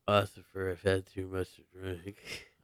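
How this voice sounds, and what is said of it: Drunk slurring voice. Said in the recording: “Do your few too many voice again.”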